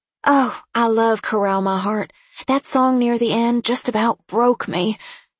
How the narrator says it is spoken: said Izzy, and let out a huge, happy sigh

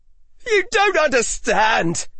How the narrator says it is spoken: yelled Aura Altane

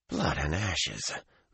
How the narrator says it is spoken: Matt muttered

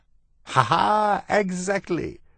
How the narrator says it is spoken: Botticelli laughed

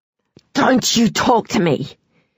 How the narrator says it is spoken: hissed Veronica

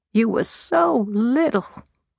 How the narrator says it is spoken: she moaned

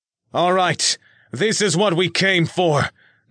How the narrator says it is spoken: Nick yelled

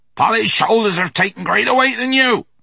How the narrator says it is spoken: he shouted in Will's ear

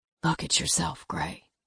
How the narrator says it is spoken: Matthew whispered

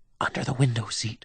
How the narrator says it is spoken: Marlena whispers urgently

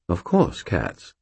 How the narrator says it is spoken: Sir Stuart said, his voice faintly amused

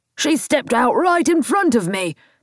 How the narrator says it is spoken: the driver shouted

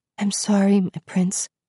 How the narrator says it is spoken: she whispered

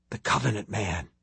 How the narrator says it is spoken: Tim whispered

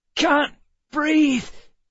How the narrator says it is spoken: Emma croaked

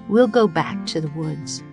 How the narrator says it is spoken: Jack said softly

